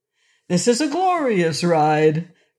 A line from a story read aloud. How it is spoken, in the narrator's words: cried Rinkitink